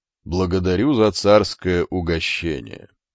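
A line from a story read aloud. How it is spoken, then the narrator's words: Faint smiling voice. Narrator (Russian): одними губами улыбнулся Басилей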